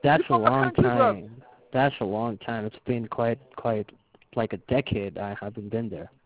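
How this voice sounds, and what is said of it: British accent. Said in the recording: “I just heard your accent ... I just heard it. Like, it just cracked”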